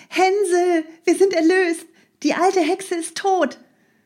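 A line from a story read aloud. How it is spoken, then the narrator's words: Called out. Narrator (German): Gretel rief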